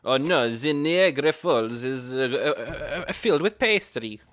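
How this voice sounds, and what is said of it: Bad put-on French accent. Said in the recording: “That's a terrible accent. ... I apologize to all our French listeners.”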